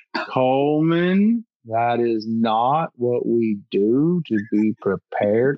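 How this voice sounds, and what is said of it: Impression of Speed Williams. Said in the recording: “you do such a good Speed Williams impression.”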